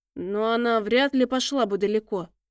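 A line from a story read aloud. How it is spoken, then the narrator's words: Uncertain speech. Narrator (Russian): неуверенно проговорил Гевор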